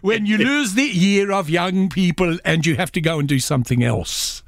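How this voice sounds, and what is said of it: Put-on Swedish accent. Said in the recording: “now I've got to do this Swedish accent”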